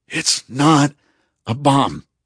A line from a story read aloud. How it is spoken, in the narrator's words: I wheezed